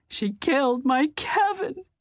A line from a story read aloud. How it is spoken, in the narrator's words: The sentence ended in an anguished wail